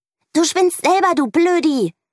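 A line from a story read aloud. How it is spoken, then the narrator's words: Shouting. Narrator (German): schreit Mieke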